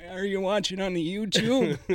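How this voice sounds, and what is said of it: Imitates an old man's voice. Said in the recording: “sounded like we're 90 years old, dude ... Just impersonating old men.”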